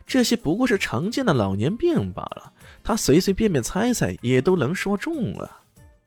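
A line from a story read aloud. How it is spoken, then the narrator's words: Sneering laugh. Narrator (Chinese): 邓总却冷笑一声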